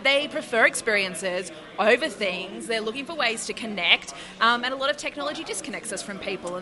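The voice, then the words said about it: Slight Australian accent. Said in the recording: “I am detecting a slight accent ... you are from Australia”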